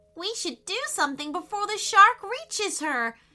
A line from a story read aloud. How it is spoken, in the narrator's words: shrieked Payton